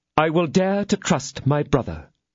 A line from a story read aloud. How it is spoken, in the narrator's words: exclaimed the lady